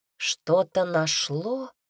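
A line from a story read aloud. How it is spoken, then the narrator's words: Thoughtful drawl. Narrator (Russian): задумчиво протянула я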